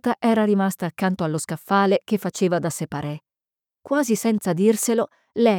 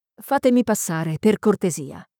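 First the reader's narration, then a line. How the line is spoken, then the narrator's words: Firm voice. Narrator (Italian): disse con voce ferma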